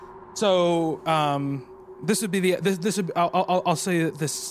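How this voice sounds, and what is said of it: Usual voice. Nothing is said of it.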